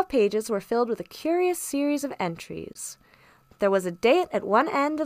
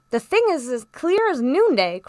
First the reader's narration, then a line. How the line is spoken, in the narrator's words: cried the squire